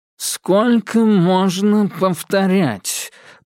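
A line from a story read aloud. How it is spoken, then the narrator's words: Nasal voice. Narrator (Russian): произнес он гнусавым тоном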